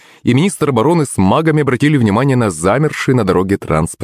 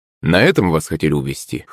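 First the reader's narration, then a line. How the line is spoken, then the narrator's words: Amused grunt. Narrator (Russian): хмыкнул Орлов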